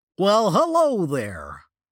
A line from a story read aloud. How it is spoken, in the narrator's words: the dinosaur said in an overly cheerful voice that did not match its evil visage